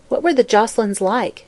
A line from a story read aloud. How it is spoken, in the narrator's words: inquired Mary Louise, in a casual tone that was meant to mask her curiosity